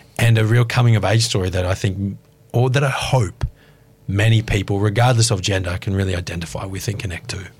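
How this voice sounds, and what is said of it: Sexy voice like Jason Statham. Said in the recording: “Was that Jason Statham? Because he's got a sexy voice.”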